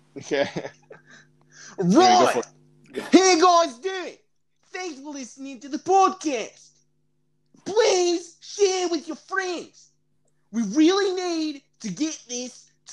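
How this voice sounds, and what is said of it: Australian accent. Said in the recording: “I'm going to do an Australian accent ... I'm going to talk like every single Australian does.”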